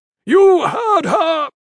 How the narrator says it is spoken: the Black bellowed, cupping a hand adorned with many rings to his mouth

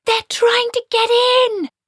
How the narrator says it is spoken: she screamed

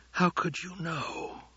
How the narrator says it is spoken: whispered

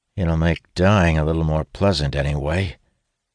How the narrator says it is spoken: He ... mutters

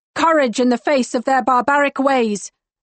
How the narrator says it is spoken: I shout

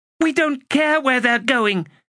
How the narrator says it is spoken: she shouted

